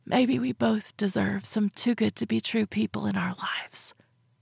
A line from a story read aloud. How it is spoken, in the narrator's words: I whispered, like it was a secret